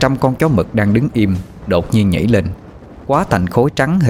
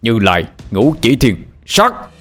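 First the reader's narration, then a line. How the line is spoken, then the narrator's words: Loud shout. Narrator (Vietnamese): Ba Lành hét lớn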